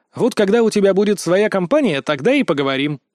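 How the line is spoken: Snort. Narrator (Russian): хмыкнул

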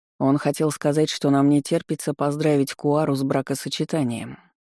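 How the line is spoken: Cold. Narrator (Russian): холодно проговорил Иммит

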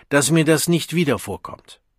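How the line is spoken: Scolding call. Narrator (German): rief der Vorsänger der Gruppe ihr tadelnd zu

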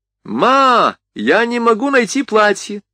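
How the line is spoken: Shouted. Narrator (Russian): крикнула Ригана

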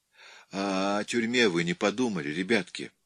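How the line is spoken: Uncertain. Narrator (Russian): неуверенно сказала Марина

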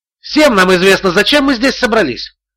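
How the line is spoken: Shouted again. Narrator (Russian): снова выкрикнул Боркин

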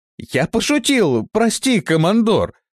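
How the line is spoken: Exclaiming. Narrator (Russian): воскликнул он

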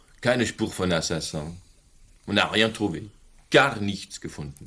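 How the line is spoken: Plain. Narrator (German): sagte Charnel

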